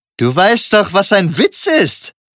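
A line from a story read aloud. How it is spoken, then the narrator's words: Called out. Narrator (German): rief er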